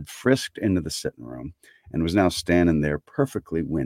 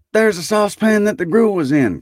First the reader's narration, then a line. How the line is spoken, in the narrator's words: cried Scrooge